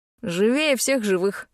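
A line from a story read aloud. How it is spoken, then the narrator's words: Smirking. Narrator (Russian): хмыкнул тот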